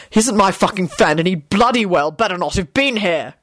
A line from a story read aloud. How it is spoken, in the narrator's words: Quentin spat out